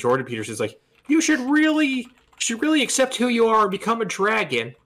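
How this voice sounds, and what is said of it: Jordan Peterson impression. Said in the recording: “when he did that voice ... it was a good impression”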